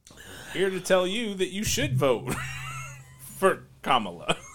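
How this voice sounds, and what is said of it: Imitates another person's voice. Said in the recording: “who can you impersonate really well? ... This is the voice of Barack Obama”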